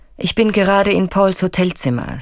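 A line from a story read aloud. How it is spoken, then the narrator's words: Flat toneless voice. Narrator (German): sagt er tonlos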